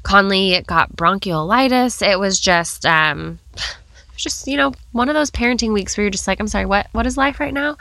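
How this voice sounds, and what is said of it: Congested voice with a cold. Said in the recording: “You can hear I have a cold.”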